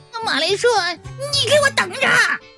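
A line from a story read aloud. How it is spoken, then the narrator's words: Reluctant, affectionate shout. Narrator (Chinese): 对我们恋恋不舍，就喊道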